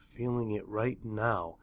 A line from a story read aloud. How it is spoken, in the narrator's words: murmured